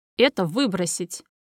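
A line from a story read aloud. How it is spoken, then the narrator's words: Commanding. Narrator (Russian): велит командным тоном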